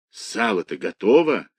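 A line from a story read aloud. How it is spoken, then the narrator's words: Whispered question. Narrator (Russian): спросил его шепотом Кирюха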